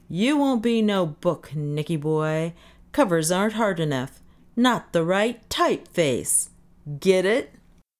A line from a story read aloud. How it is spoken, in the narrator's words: He roared